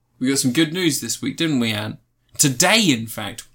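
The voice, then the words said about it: Sarcastic tone. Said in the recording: “Are you being sarcastic?”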